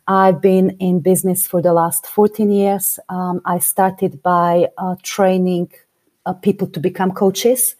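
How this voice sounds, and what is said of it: Slovak accent in English. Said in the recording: “I come originally from Slovakia. I've been living in the UK for the last 20 years. Never managed to lose my accent”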